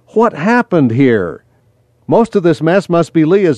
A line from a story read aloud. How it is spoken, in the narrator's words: Daniel exclaimed